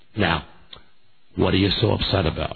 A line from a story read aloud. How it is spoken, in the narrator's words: She says that very calmly